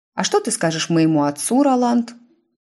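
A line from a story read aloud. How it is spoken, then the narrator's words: Sugary sweet inquiry. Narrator (Russian): Сладеньким голосом осведомилась Тиффани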